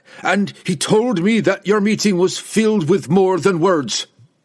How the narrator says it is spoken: Wolfgar shouted back

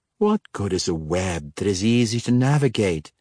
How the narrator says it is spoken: Ikardaria purred

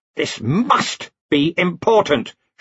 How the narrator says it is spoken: snapped

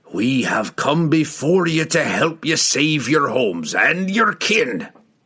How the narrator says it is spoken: he roared

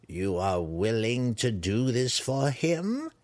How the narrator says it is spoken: Malice sneered, eager drool edging her mouth

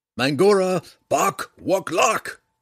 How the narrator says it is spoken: yelled again

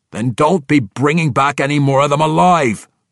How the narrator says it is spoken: Brunner shouted in his face

